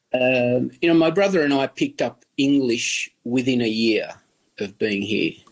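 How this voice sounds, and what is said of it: Broad Australian accent. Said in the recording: “I have this quite broad Australian accent, having grown up in the western suburbs of Sydney”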